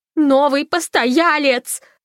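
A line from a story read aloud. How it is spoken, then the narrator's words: Yelled. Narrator (Russian): завопила Фанни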